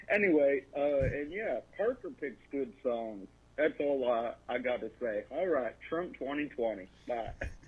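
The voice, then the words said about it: Put-on southern accent. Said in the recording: “it sounded like you. ... Doing a southern accent.”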